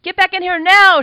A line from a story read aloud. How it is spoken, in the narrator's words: she shouted again